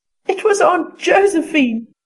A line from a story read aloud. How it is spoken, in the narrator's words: said Diana, gasping with laughter